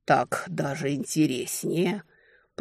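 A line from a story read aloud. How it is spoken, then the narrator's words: Hiss. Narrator (Russian): прошипел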